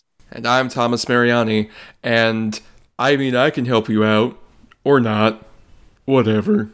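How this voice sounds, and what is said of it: Impression of Ed Harris. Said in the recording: “That was my impression of Academy Award nominee Ed Harris”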